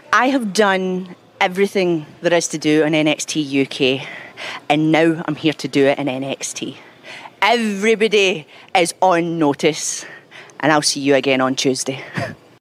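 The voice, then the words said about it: Very thick Scottish accent. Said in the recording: “She has the thickest Scottish accent I've ever heard in my life”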